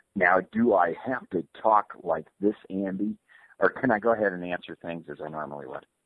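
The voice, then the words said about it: Imitates another person's voice. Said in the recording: “That was a pretty decent Keck impersonation.”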